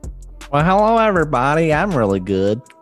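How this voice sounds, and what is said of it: Nerdy put-on character voice. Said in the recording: “That's my nerd bracketology voice.”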